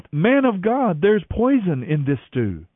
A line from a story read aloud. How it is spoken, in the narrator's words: they cried out